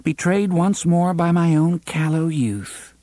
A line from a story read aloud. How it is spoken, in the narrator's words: Cuthbert said sadly